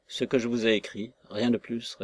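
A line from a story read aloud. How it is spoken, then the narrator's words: Gruff reply. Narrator (French): répondit-il, d'un ton bourru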